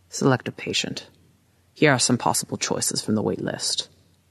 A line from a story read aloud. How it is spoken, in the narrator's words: Master Agoza in his gravelly voice, says